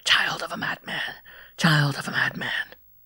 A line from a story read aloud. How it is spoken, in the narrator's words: But a voice seemed to hiss in my ears